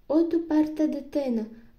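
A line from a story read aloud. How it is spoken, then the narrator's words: Exclamation. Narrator (Ukrainian): вигукнула міс Скетчерт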